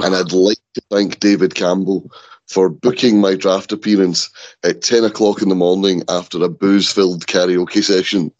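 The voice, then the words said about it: Rough, worn-out, hoarse voice. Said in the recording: “my voice sounds like I've been through 10 seasons of the draft in one sitting ... it sounds like a junkie's carpet”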